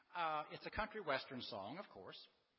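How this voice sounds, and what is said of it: Country western style accent. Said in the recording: “I've got the accent for country western music”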